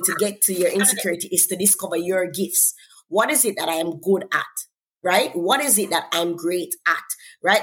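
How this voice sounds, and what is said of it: Jamaican accent. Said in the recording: “because I'm from Jamaica, I come from an accent”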